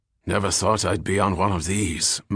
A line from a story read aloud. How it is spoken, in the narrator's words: muttered old Darby